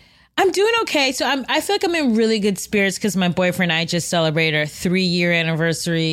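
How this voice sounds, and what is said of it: Usual voice. Nothing is said of it.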